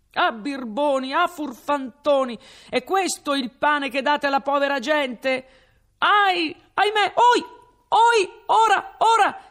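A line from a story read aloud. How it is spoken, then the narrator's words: Shouting from below. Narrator (Italian): s'urlava di giù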